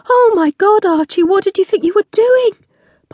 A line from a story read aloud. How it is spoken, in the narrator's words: Polly cried